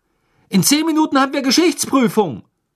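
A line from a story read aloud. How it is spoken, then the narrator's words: Calling after someone. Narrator (German): rief nach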